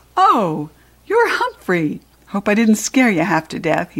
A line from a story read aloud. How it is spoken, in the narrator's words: he said with a laugh